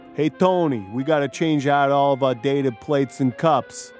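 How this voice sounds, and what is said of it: Not-great Sopranos mobster impression. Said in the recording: “we've all seen The Sopranos, right? ... That's not a great impression”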